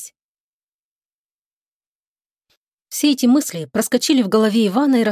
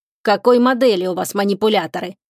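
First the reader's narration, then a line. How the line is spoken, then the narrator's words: Stern question, dispatcher. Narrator (Russian): строго спросил диспетчер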